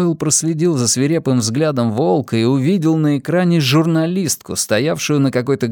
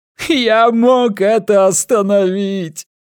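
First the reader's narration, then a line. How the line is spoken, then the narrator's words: Wolf yelling. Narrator (Russian): орал волк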